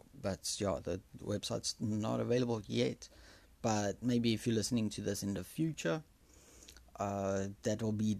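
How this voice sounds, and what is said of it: Afrikaans accent. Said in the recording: “Excuse my accent, I'm Afrikaans actually.”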